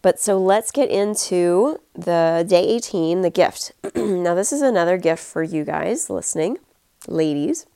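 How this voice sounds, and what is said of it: Congested, stuffy-nosed voice. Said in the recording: “my head is very stuffy. If you can tell, my voice is a little different... my sinuses are making very interesting noises”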